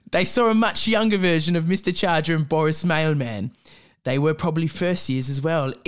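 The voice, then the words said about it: Put-on British accent. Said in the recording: “I'm really hating I committed to the British accent.”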